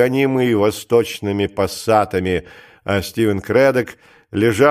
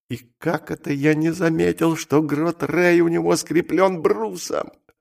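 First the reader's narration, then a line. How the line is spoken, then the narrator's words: Muttered. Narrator (Russian): пробормотал он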